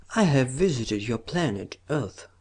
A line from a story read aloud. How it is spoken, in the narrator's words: said Kellen, smiling very faintly